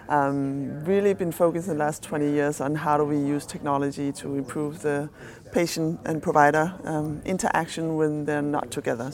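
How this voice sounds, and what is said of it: Danish accent. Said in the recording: “I'm a physician from Denmark, that's the accent.”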